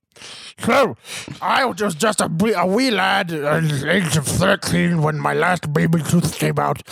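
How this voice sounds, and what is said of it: Mushy put-on accent. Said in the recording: “it sounds like you only eat food that you never chew ... That's my accent.”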